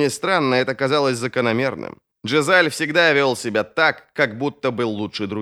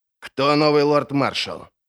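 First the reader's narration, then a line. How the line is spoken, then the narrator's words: Angry question. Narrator (Russian): зло спросил Крой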